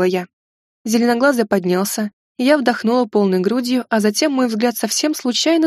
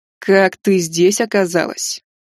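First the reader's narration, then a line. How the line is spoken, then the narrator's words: Growled. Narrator (Russian): прорычала моя мечта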